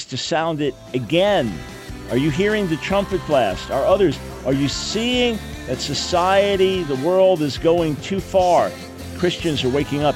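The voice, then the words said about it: Raised, loud voice. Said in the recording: “raising my voice”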